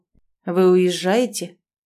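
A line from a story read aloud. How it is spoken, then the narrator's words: Muffled, confused forcing out. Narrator (Russian): наконец выдавил он из себя глухо, ничего не понимая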